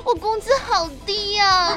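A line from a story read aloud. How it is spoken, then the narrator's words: Crying. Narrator (Chinese): 我就一边哭一边跟我们的单总说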